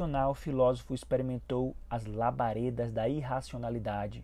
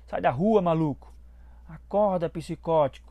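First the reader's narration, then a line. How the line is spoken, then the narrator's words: Drivers shouting. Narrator (Portuguese): Motoristas gritaram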